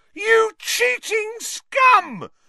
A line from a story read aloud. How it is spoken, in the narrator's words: Lee Jordan was howling into the megaphone